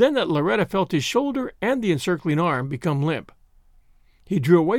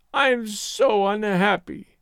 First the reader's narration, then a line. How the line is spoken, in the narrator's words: she wailed